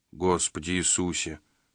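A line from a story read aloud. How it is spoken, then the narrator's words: Muttering. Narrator (Russian): пробормотал Джина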